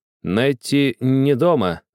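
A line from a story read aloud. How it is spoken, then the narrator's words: Stammering servant. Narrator (Russian): заикаясь, отвечал лакей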